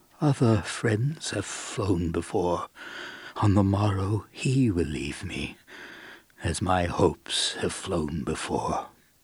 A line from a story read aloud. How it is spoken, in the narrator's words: I scarcely more than muttered